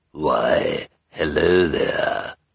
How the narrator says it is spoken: said in a sinister voice

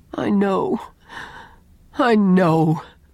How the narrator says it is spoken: groaned Owen

